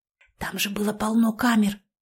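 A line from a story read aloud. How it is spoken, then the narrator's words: Whisper in ear. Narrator (Russian): прошептала я на ухо Нине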